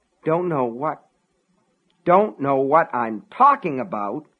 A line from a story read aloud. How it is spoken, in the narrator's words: Frank sputtered